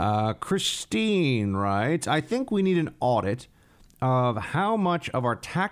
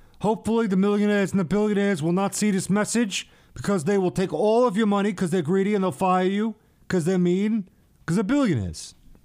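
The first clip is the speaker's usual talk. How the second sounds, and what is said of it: Imitates another person's voice. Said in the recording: “best Bernie imitation.”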